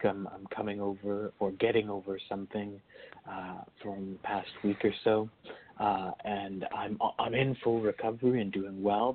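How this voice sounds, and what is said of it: Scratchy, soft, slightly off voice. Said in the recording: “My voice is a little bit off this week ... this kind of weird, scratchy, soft voice”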